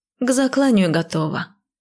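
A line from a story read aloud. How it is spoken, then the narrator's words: Grim report. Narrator (Russian): мрачно отрапортовала я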